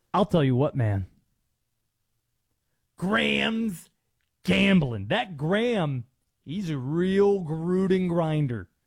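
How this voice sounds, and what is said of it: Jon Gruden impression. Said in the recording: “the Gruden accent. I should have probably answered that question fully in the Gruden voice ... I'll do this tease in the Gruden voice”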